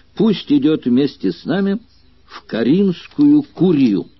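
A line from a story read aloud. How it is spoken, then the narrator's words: Sudden loud shout. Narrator (Russian): Вдруг кто-то громко крикнул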